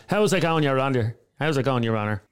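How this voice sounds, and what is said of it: Put-on flat Dublin accent. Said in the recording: “somebody with a flat Dublin accent... I've never heard a solicitor or a barrister going”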